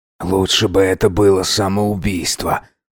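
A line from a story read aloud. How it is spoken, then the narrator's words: Muttered through teeth. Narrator (Russian): пробормотал сквозь зубы хозяин дома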